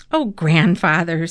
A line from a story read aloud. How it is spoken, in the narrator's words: said Thomas, laughing